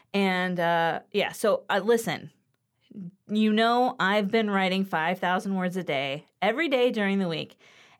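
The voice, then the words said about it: Slightly raspy voice. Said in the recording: “My throat gets a little raspy”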